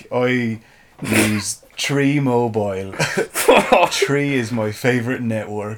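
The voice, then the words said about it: Generic put-on Irish accent. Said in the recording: “You're just doing generic Irish.”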